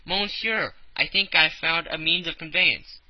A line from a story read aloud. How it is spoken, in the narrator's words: hastened, said